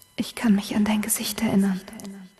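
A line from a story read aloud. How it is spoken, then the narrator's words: Whispered. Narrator (German): flüstert er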